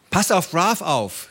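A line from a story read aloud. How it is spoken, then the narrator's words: Woman calling out. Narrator (German): rief sie Barbara zu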